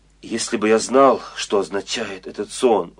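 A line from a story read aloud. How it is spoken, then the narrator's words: Exclamation. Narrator (Russian): воскликнул фараон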